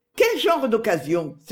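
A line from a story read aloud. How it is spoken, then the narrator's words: Exclaimed. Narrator (French): s'écria Émilie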